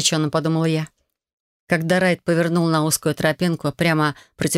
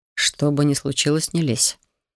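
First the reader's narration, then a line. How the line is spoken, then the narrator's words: Quiet. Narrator (Russian): тихо произнес Хантер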